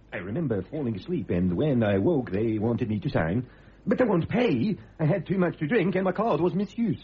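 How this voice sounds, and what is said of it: Inconsistent put-on Scandinavian accent. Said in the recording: “As was that accent. ... all over the place. ... Scandinavian”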